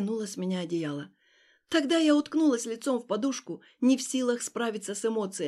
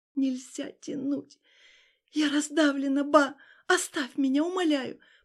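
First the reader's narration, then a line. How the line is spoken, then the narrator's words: Pleading through sobs. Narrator (Russian): просила сквозь рыдание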